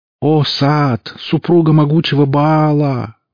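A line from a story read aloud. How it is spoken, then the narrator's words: Wailing woman. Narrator (Russian): взвыла женщина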